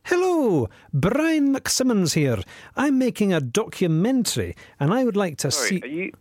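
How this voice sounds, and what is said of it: Put-on Scottish accent. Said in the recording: “Are you putting on a Scottish accent?”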